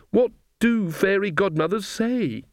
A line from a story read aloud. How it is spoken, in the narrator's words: She wailed